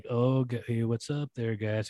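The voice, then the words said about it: Flat deadpan comedic voice. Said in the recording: “deadpan comedy where he just kind of like ... It was like deadpan comedy”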